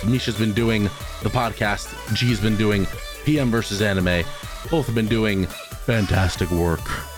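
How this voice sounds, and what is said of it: Unusually deep, strained voice. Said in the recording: “My voice is a lot deeper because I got fucked up in the voice hole.”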